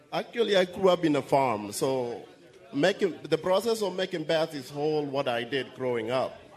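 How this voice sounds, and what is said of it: Kenyan accent. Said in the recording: “I love your accent... I'm from Kenya”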